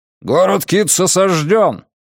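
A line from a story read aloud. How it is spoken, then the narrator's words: Barking. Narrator (Russian): рявкнул Морпурго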